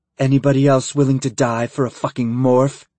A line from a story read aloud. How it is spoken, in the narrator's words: she snarled